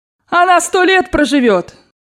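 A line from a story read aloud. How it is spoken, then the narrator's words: Shouted. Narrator (Russian): крикнула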